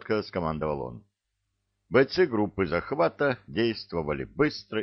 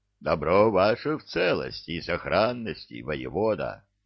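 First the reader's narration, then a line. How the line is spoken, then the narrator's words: Giant's booming bass. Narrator (Russian): басил гигант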